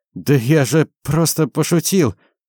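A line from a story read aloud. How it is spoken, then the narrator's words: Groaned. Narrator (Russian): простонал Валь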